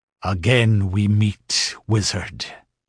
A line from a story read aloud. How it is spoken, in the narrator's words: he grinned savagely